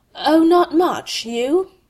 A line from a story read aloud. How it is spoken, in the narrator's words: Malfoy was trapped now by the rules of propriety, and stammered